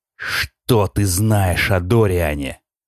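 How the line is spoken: Growl. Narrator (Russian): прорычал

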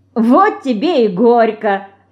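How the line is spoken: Loud laughter. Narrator (Russian): расхохоталась Динка

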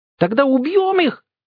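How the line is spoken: Hysterical scream. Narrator (Russian): истерически завопила Настя

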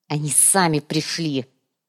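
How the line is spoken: Spiteful snap. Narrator (Russian): злобно бросил Руперт Луминор

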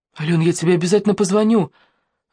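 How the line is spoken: Babbling. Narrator (Russian): лепетал Денис

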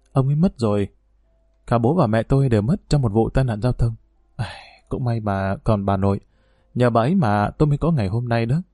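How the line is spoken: Soft sigh, then reply. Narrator (Vietnamese): Trinh thở dài nhẹ rồi đáp

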